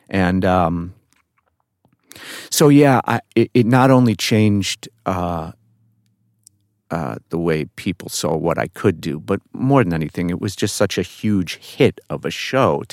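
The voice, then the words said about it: New York accent. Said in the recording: “I certainly had and still do have a New York accent, but it was very much stronger back then.”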